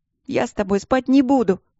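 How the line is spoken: Indignant, tearful. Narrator (Russian): возмутилась Вики сквозь слезы

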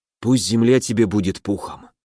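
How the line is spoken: Whisper. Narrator (Russian): прошептал

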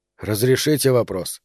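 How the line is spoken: Asked quietly. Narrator (Russian): тихо спросил Роману

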